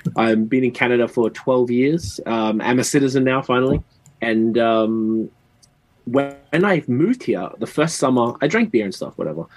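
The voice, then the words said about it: Australian accent. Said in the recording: “I'm from Australia, I guess you can hear the accent.”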